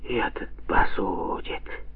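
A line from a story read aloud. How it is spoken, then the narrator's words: Quiet. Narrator (Russian): тихо сказала Анастасия Игнатьевна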